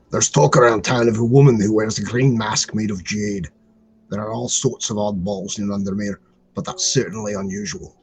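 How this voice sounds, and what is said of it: Put-on Scottish accent, strained. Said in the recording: “You do this voice. ... I think he was Scottish. ... That hurts my throat.”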